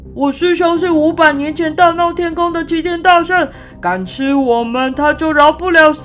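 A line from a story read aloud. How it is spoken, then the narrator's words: Loud shout. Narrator (Chinese): 八戒大声地喊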